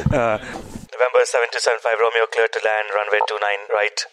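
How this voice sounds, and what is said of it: Speaks with a noticeable accent. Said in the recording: “I love it with your accent.”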